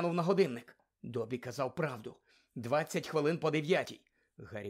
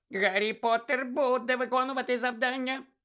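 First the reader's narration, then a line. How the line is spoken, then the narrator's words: Squeaky elf voice. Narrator (Ukrainian): пропищав ельф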